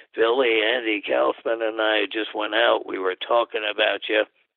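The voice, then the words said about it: Impression of wrestler Buddy Rogers. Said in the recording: “I had to get my Buddy imitation in there”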